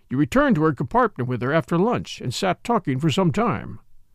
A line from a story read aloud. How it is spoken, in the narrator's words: said the commissary sharply